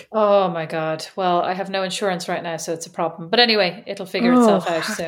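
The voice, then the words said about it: Irish accent. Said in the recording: “to maintain my Irish accent because I get compliments on it all the time”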